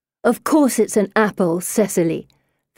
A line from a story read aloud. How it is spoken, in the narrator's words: Felicity snaps